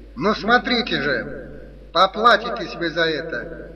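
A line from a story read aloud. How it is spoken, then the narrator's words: Shouted threat. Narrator (Russian): Он еще прокричал какую-то угрозу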